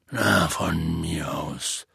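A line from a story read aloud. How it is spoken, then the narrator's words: Resigned voice. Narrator (German): sagte Hagrid mit resignierter Stimme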